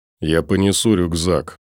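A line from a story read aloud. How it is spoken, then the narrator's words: Through gritted teeth. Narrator (Russian): сквозь зубы сказал краб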